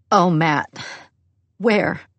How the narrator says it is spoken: she asks, voice choked

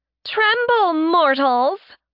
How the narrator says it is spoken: Laura shouted

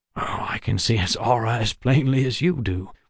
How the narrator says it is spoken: Waylon said with a chuckle

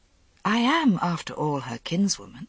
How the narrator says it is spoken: Morgaine said gently

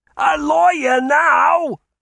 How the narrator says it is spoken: he yelled

